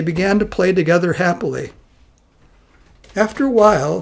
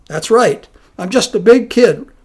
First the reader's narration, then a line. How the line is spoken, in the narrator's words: replied Wonhyo cheerfully